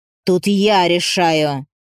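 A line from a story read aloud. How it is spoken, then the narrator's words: Through gritted teeth. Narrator (Russian): Владелец борделя цедил сквозь зубы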